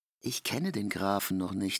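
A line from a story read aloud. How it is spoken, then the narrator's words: Plain. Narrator (German): sagte K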